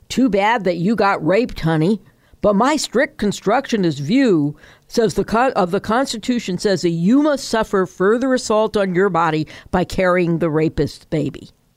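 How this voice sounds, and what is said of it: Imitates another person's voice. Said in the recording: “great Kavanaugh impression”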